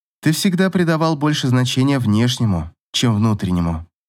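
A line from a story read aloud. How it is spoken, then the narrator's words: Sighing. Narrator (Russian): вздохнула Ив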